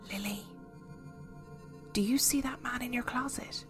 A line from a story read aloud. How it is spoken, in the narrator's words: my friend beside me whisper hesitantly